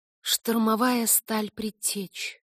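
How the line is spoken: Muffled girl's mutter. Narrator (Russian): глухо пробормотала девочка

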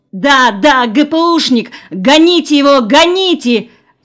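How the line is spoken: Shouted. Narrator (Russian): кричала Лёля

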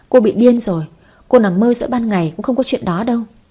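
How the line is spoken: Contemptuous laugh. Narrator (Vietnamese): Ngân Hà bật cười khinh bỉ

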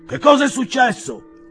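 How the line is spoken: Roaring. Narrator (Italian): ruggì il padrone di casa

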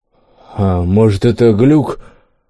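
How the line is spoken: Stammering. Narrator (Russian): Лом с кислым, заикаясь, произнес

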